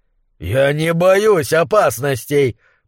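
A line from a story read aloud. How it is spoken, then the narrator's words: Roared. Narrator (Russian): проревел он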